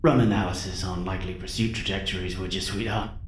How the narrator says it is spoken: mumbled an adorably sleepy Carl

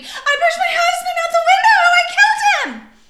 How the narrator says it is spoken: She screamed

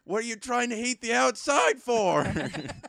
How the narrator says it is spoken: Dad the other day yelled at me

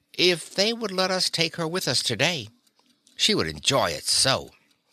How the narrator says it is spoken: she said, sort of wistfully

